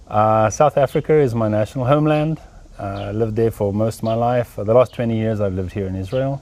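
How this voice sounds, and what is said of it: Non-Texan, South African accent. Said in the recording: “I can tell from your accent ... that you're not from Texas”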